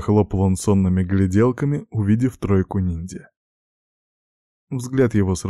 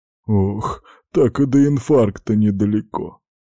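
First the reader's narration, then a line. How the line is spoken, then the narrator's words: Sobbing. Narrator (Russian): всхлипнул он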